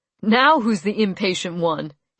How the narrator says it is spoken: he laughed

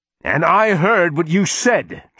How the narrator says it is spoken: Charles shouted back

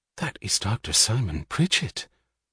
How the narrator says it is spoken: The woman answered in a whisper of awed respect

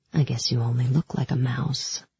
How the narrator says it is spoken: he whispered in my ear

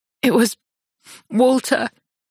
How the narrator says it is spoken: she says through juddering sobs

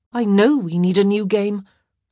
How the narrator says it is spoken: Sophie muttered

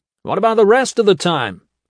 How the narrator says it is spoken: He hollered after her

